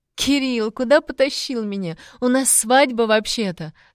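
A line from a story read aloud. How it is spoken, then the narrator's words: Laughing, muffled against neck. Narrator (Russian): смеялась Лиска мне в шею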